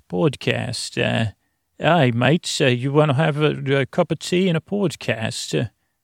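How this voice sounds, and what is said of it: Put-on British or Australian accent. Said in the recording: “That's my little accent. ... I think I got to tweak it for England or Australia. ... I got to get back to my own voice now”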